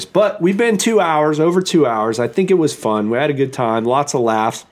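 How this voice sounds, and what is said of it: Strained voice from sore throat. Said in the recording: “my throat is killing me. It's like my sore throat. I think I'm losing my voice.”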